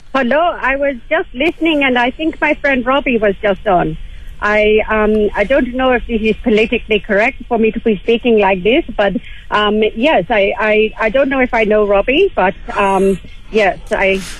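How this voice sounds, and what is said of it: Put-on Indian accent. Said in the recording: “So Indian accent. ... Meant to be Indian”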